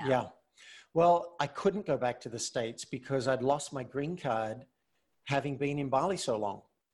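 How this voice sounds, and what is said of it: Speaks with a non-American accent. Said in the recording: “You're talking to me with an accent, I forget that you're not from the States.”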